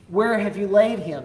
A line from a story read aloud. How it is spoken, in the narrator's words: he asked